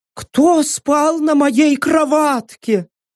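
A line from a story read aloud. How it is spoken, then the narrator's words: Thin squeak. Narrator (Russian): тонко пропищал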